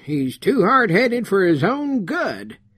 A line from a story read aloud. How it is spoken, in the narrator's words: exclaimed Bernie